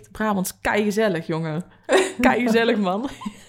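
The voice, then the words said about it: Exaggerated Brabant Dutch accent. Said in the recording (Dutch): “Daar komt haar accent naar boven ... dat Brabant zit er ook al in op zich. Harde G, die zal ik nooit krijgen.”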